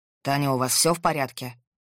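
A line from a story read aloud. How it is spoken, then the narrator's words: Unexpectedly stern question. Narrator (Russian): Неожиданно строго спросил Максим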